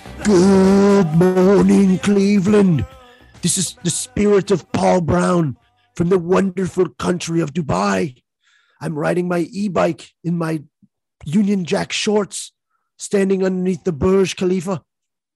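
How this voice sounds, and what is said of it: Badly done put-on accent. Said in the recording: “accent's terrible”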